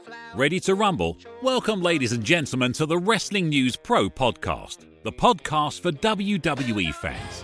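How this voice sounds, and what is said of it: British-accented voiceover announcer. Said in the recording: “who aren't the least bit British. They just love the accent enough to pay for this voiceover”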